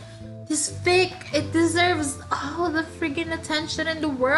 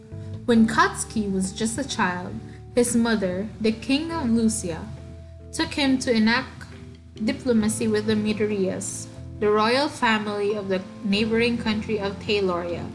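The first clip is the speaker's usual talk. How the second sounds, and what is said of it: Mock-serious reading voice. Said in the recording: “put on my serious voice.”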